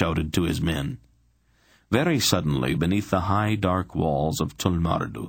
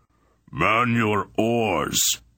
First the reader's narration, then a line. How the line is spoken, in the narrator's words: Barak roared to his crew